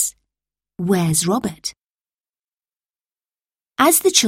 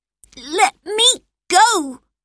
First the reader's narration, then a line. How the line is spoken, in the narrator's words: Robert shouted